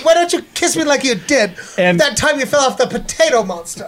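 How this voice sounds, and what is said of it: Natalie Portman impersonation. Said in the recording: “your Natalie Portman impersonation”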